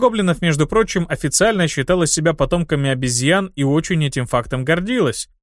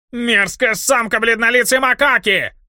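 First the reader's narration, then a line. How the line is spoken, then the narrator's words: Wailing yell. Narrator (Russian): Завопил незадачливый торгаш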